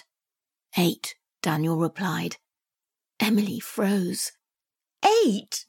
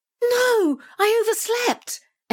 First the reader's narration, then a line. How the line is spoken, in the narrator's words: Emily cried